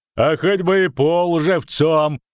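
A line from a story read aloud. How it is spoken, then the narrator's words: Loud laughter. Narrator (Russian): захохотал Брик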